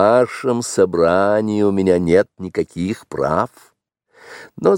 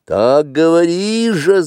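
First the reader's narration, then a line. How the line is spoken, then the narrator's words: Many voices shouting together. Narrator (Russian): закричало 20 голосов разом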